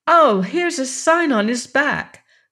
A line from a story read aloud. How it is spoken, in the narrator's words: cried Betsy